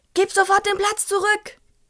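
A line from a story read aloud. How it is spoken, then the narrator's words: Screeching. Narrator (German): kreischte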